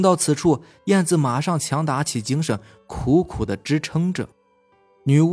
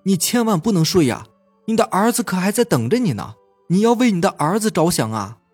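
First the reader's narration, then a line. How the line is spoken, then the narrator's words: Doctor shouting. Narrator (Chinese): 医生大声的呼喊着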